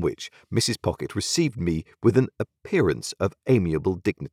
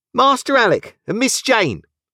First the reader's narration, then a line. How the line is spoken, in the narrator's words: cried one of the nurses